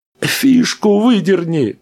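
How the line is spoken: Shouting. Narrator (Russian): прокричал Рэнди

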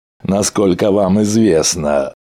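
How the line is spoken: Contemptuous snort. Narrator (Russian): презрительно фыркнул Бог

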